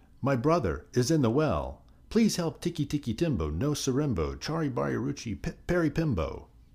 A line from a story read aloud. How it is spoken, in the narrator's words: The boy shouted